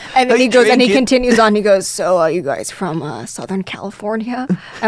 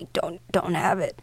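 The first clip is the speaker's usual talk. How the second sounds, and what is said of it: Weak, dying-sounding man's voice. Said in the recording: “your impersonation makes it sound like he's dying”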